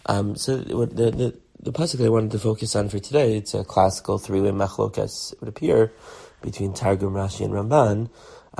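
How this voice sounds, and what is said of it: Weak voice. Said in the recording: “my voice is a little weak.”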